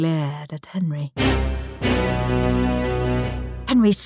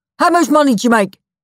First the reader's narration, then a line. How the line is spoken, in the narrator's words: shouted Rudolph